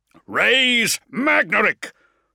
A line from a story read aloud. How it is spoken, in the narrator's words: Thane roared, voice amplification pushing maximum and whining with feedback